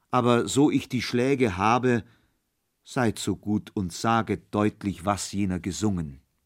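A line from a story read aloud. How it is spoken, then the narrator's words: Sighing reply. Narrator (German): erwiderte Kohlenpeter seufzend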